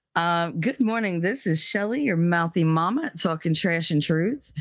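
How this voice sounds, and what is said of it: Rough, worn-out voice. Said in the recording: “My voice is absolute crap. Hopefully it'll come back during the course of the morning.”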